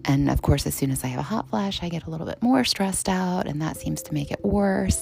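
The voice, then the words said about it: Calm, soothing radio-style voice. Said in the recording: “my NPR voice, my calming voice, my radio voice”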